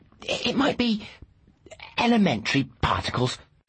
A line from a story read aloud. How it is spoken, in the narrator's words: she scoffed